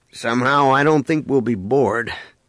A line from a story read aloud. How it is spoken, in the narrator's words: Han remarked dryly